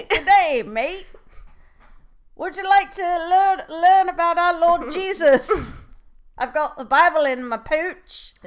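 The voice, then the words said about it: Attempted Australian accent. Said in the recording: “I don't, can't do an Australian accent.”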